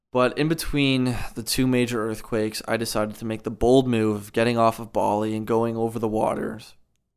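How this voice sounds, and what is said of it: Hoarse, strained voice. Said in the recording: “I'm losing my voice, because it's, you know, a lot of talking”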